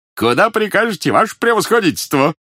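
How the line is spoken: Dashing shout, grey-bearded man. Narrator (Russian): молодцевато выкрикнул сивобородый владимирец

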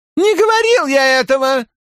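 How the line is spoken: Squeaky voice. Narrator (Russian): пропищал Хорн

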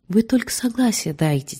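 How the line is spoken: Quiet request. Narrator (Russian): тихонько попросил Долинин

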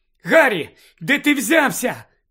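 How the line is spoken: Shout. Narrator (Ukrainian): крикнула Джинні

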